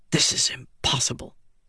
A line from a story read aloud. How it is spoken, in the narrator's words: he muttered